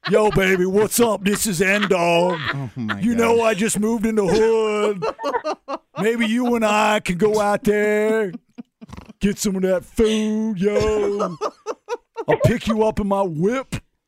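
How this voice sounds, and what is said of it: Imitates another person's put-on dialect voice. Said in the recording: “stop talking in your black voice.”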